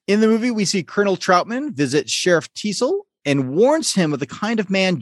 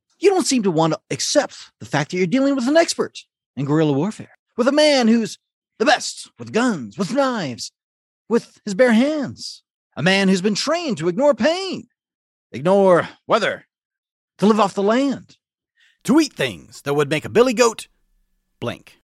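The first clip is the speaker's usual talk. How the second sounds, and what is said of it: Imitates a film character's voice. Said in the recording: “my best Colonel Troutman impression ... Sorry if it sounds more like William Shatner than Troutman”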